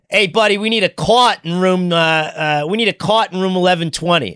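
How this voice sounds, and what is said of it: Put-on Good Will Hunting-style accent. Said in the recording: “I'm going to butcher it. I had a better accent at the time ... gave him like the Goodwill Hunting accent?”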